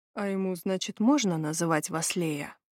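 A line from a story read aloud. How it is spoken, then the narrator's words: Slightly rough. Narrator (Russian): Голос Леона прозвучал немного грубо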